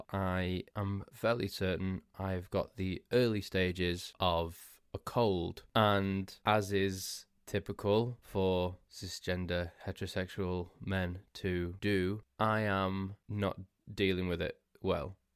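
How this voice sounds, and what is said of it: Hoarse, congested, sniffly voice. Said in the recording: “you can probably hear that in my voice... I've started to lose my voice. I'm a little bit sniffly. I've got a sore throat.”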